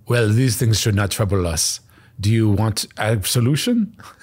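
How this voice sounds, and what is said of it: Poorly done put-on accent. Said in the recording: “I apologize for my poor accents.”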